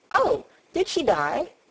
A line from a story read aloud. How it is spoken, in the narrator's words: she exclaimed, quite without meaning to